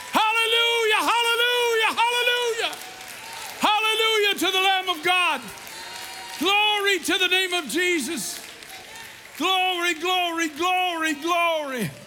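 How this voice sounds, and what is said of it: Shouting. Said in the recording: “I'm sorry if I'm shouting at you tonight, but I can't help myself.”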